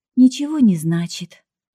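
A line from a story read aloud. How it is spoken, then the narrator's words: Sigh. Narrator (Russian): вздохнула я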